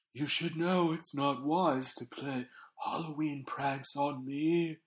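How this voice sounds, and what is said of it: Imitates another person's voice. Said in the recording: “your impression's gotten good.”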